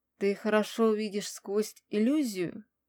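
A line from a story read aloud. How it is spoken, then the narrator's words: Man's gentle question. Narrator (Russian): мужчина мягко поинтересовался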